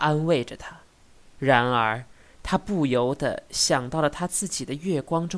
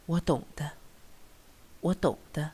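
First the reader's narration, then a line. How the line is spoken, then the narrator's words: Quiet agreement. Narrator (Chinese): 小声答应着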